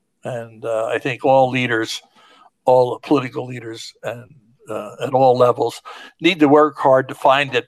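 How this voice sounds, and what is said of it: Strained voice, losing it. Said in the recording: “I'm losing my voice.”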